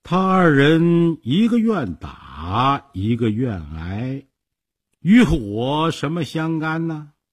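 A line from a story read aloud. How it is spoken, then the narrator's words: Slow, slight smile. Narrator (Chinese): 孔明微微一笑，慢慢地说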